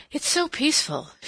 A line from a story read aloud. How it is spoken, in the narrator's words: she said, as if in explanation of her sigh